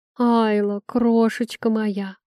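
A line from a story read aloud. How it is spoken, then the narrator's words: Affectionate exclamation. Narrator (Russian): ласково воскликнула главная скандалистка и сплетница Тафрии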